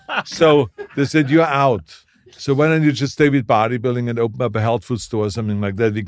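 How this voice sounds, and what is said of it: German-sounding accent. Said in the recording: “I have an accent. People are scared of the German accent.”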